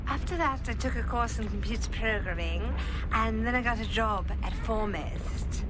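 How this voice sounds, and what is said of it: Affected slight English accent. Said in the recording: “She had this affected way of talking. ... Put on a slight English accent. ... I thought it was phony.”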